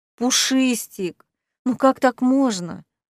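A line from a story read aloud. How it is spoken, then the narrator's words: Gentle chiding. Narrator (Russian): ласково корила зая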